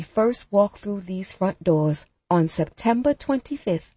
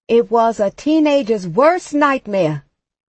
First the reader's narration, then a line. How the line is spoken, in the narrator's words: someone else shouts